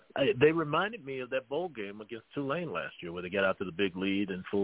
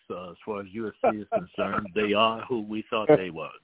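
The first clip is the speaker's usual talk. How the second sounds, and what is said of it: Imitates another person's voice. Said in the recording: “In my best Dennis Green voice,”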